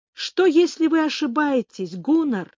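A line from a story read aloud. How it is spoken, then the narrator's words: Exclamation. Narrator (Russian): воскликнула я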